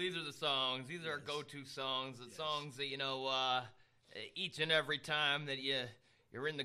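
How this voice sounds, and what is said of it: Usual voice. Nothing is said of it.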